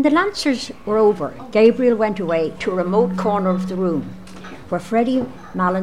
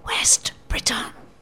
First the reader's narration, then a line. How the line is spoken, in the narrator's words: she stood on tiptoe and whispered into his ear